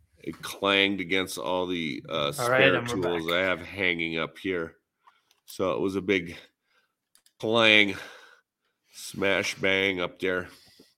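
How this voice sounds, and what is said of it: Minnesota accent, sounds Canadian. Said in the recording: “You sound way too Canadian ... You sound Canadian. Yeah, sound real Canadian. ... my accent ... I'm Minnesota”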